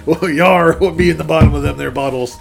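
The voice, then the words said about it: Put-on pirate accent. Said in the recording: “I don't know why I'm a pirate. ... talk like a pirate”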